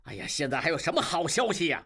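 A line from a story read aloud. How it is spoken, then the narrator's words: Angry. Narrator (Chinese): 金勇怒道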